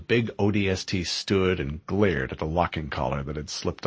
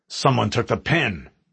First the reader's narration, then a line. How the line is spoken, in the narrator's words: he growled